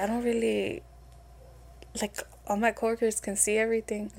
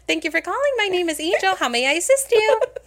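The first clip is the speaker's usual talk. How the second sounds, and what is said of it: Chipper, higher-pitched customer service voice. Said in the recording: “customer service voice ... totally different ... I sound so fucking chipper ... it's like a higher pitch”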